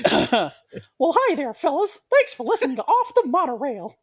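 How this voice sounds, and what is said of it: Mickey Mouse cartoon voice. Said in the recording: “I can do a decent Mickey Mouse impression.”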